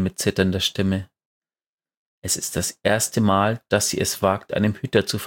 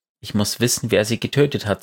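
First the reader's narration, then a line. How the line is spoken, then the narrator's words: Plain. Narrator (German): sagt Mara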